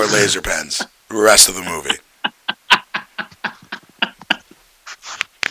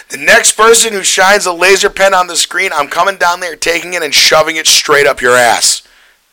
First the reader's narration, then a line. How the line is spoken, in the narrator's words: the same dude who did the incest line stands up and yells